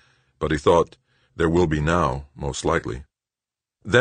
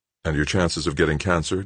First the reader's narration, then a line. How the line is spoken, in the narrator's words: Doug asked